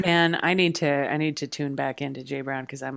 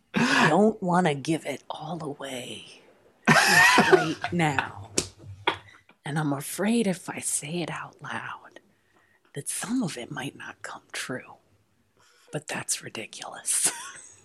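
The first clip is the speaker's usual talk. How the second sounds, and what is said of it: Imitates another person's voice. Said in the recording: “This is our version of a Jay Brown ... I'm getting rusty on my impression ... That was almost good.”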